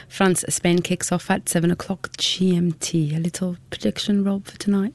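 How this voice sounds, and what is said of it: French accent. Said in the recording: “you people may be able to tell from your accent you are French”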